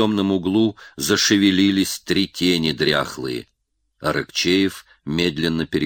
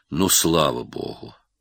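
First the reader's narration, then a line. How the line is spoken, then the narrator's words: Group sigh of relief. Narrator (Russian): вздохнули все с облегчением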